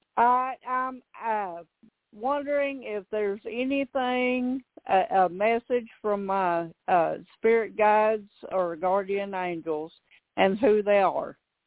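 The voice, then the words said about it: Arkansas Southern accent. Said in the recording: “that beautiful accent ... I got the Arkansas”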